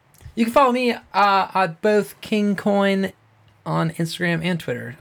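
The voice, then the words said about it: Slight put-on accent. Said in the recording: “I did it like a little bit of accent right there, an accent. That was weird.”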